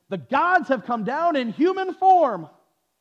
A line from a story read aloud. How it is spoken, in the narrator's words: they shouted in the Lycaonian language